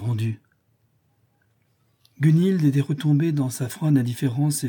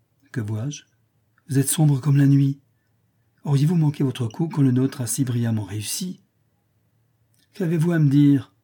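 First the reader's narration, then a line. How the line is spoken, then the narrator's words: Curt. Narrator (French): demanda Eugénius d'un ton bref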